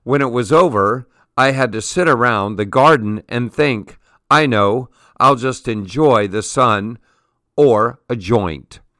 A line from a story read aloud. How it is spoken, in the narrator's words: he tells with a laugh